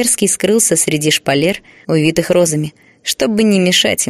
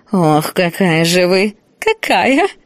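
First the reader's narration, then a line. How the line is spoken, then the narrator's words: Laughing. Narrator (Russian): Смеялась Евдокия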